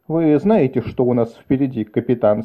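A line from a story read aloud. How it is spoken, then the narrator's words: Plain. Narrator (Russian): спросил Шем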